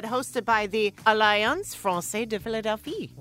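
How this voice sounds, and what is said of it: Put-on French accent. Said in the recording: “I would like a compliment on my French accent.”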